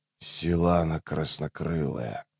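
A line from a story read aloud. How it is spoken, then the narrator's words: Muttered. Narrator (Russian): пробормотал Рейст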